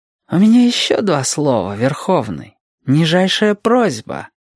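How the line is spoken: Ingratiating, insinuating. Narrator (Russian): Саттанар проговорил вкрадчиво

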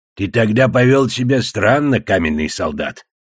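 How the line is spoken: Growling. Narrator (Russian): Я зарычал

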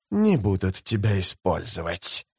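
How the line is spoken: Hissing. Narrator (Russian): зашипел Искарал Прыщ

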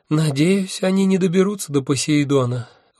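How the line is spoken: Sighing. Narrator (Russian): вздохнул Арес

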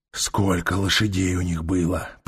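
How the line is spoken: Growling. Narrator (Russian): прорычал Трок

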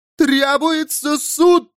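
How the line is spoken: Shouting. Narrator (Russian): закричала она

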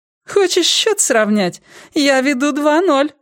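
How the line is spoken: Laughing. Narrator (Russian): смеялась она

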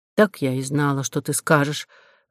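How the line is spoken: Sighing. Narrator (Russian): вздохнула Нинеля

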